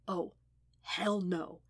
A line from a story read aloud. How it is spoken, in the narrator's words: whispered